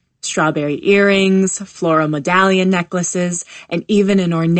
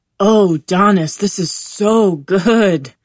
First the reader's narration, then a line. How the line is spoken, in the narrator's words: Jamie moans